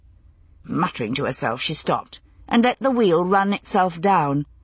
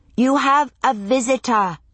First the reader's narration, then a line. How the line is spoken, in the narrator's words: she said, raising her voice to interrupt the bedlam